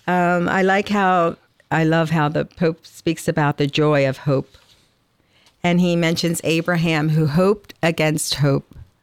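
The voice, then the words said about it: Atlantic City South Jersey accent. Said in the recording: “you probably hear my Atlantic City accent. ... it still sounds like South Jersey”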